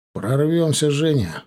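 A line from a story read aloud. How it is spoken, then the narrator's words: Wry snort. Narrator (Russian): хмыкнул я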